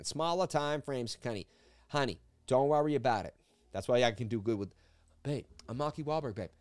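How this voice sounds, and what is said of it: Put-on Boston accent. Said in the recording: “There's the Boston accent.”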